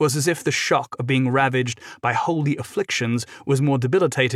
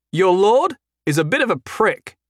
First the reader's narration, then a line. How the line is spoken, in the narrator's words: Jason called out to him